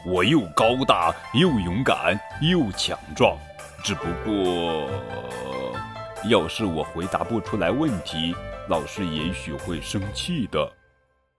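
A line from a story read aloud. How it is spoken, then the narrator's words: Roaring. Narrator (Chinese): 威尔逊吼道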